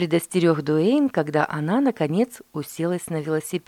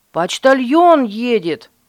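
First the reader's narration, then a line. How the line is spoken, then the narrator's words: Shouted. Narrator (Russian): закричал Дуэйн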